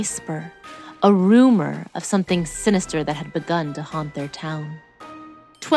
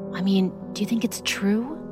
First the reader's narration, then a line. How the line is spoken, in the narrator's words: He whispered